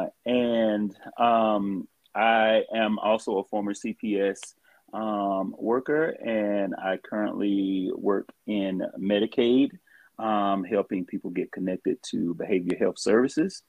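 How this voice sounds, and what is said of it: Southern American accent. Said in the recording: “as you can tell from the accent, I am born and raised Southern.”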